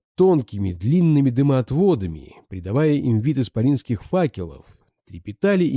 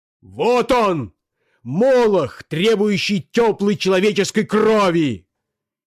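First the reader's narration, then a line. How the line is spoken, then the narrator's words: Shouting. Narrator (Russian): кричал Бобров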